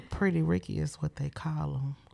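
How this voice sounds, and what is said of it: Slow, seductive, slightly raspy voice. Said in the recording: “sexy voice ... seductively ... slow and sexy and with a wink ... It was a little raspy.”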